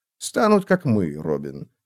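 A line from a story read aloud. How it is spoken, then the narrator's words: Gentle. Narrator (Russian): мягко сказал он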